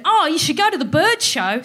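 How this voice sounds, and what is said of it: Put-on accent quoting someone. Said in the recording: “Sorry about the accent.”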